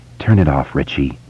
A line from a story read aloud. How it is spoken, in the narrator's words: Beverly said softly